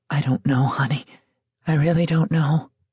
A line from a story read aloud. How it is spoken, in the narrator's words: Speaking in barely a whisper and fighting back her own tears, Janet said